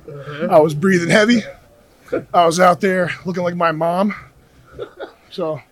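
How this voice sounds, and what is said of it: Hoarse, worn-out voice. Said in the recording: “His voice is shot in this.”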